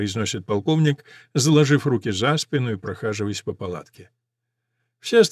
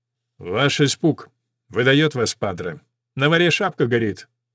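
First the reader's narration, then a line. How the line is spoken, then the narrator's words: Sterner tone. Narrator (Russian): говорит более суровым тоном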